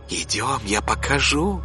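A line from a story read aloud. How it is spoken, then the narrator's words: Whispered. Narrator (Russian): зашептала она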